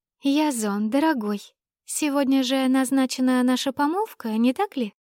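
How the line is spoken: Sweet singsong voice. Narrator (Russian): пропела фигура сладким голосом

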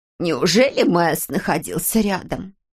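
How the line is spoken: Creaky voice. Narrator (Russian): проскрипела она

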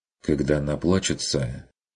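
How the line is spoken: Quiet order. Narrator (Russian): тихо распорядился Курт

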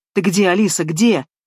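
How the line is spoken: Normally calm man shouting loudly. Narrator (Russian): Обычно спокойный Сабуров на этот раз кричал в голос

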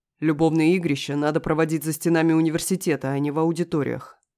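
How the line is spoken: Growl. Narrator (Russian): рыкнул ну очень знакомый голос

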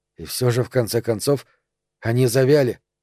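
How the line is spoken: Whisper. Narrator (Russian): прошептал Роберт

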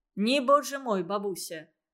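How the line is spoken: Cheerful. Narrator (Russian): бодро ответил Никита

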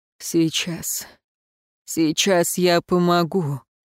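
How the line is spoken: Hoarse mutter. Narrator (Russian): пробормотал Эруан, хрипло

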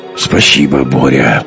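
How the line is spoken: Mutter. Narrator (Russian): пробормотал Гумилев

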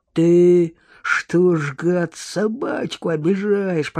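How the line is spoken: Menacing growl, vagrant. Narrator (Russian): прорычал бомж, угрожающе насупившись

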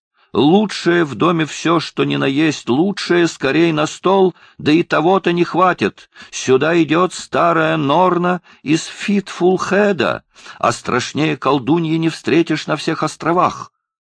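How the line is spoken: Female shout. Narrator (Russian): она закричала

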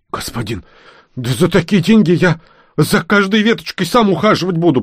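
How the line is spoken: Hoarse wheeze. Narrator (Russian): прохрипел он

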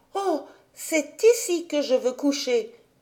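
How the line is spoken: Exclaimed. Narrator (French): s'écria Heidi

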